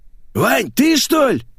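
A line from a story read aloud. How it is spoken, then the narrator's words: Hoarse voice behind door. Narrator (Russian): прохрипела из-за двери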